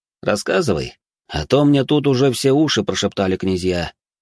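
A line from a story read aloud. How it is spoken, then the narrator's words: Sighing man from monitor. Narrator (Russian): вздохнул мужчина с монитора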